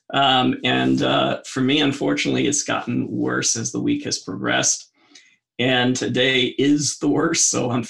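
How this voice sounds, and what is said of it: Sick, unwell-sounding voice. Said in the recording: “You can probably tell I'm not doing physically well, if you can hear it in my voice.”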